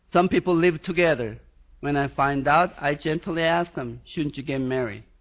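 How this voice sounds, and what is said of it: Swedish accent. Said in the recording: “my Swedish accent”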